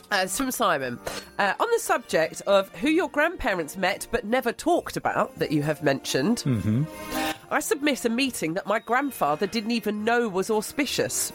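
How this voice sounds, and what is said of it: Congested, stuffy voice. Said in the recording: “Got a rotten cold, haven't you? ... I have a rotten cold.”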